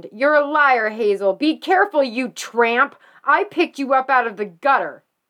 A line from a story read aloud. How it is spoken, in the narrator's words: Bessie Moore screamed